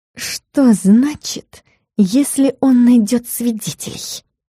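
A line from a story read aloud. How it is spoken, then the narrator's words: Angry whisper. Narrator (Russian): спросила злым шепотом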